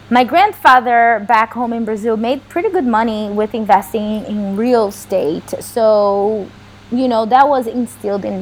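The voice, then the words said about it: Strong foreign accent. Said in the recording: “I'm sorry about my accent. I still have a strong accent”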